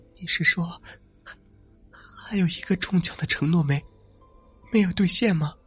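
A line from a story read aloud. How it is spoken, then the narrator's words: Trembling question. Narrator (Chinese): 他颤声问道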